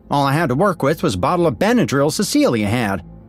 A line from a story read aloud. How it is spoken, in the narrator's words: shouted Samantha from the far side of the crowd